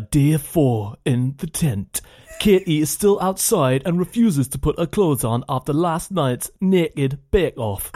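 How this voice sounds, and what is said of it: Good put-on accent. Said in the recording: “That's a very good little accent.”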